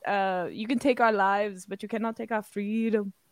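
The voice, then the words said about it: Attempted Scottish accent, slipping Austrian. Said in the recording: “I was almost doing a Schwarzenegger accent... Scottish”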